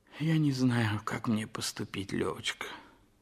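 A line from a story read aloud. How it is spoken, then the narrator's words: Sighing. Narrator (Russian): вздохнув, сказал Толстой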